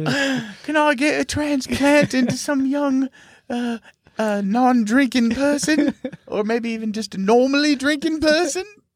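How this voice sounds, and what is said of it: Put-on English accent. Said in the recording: “I don't know what accent I'm doing. ... It's apparently your liver is English.”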